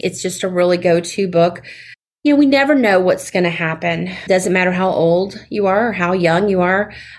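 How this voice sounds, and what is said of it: Southern American accent. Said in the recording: “having my Southern accent”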